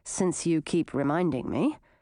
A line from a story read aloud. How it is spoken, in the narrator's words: Grissina grumbled